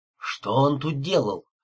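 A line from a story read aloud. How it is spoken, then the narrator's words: Hoarse question. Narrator (Russian): охрипшим голосом спросил я у Бет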